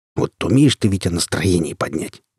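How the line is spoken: Grumbling mutter. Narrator (Russian): буркнул Григорий

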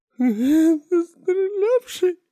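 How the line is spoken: Whimpering. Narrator (Russian): захныкал

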